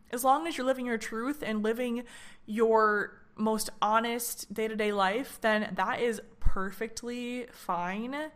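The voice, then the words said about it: Strained voice giving out. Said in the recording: “my voice is kind of going out”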